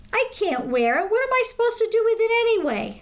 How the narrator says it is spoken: Abby had whined

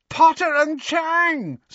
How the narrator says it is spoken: screeched Pansy

